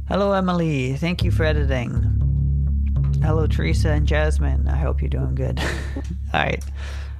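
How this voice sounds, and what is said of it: Congested, stuffy-nosed voice. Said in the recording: “I sound kind of nasally today because my nose is a little stuffed up ... I'm nasal-less, because my nose is stuffed up”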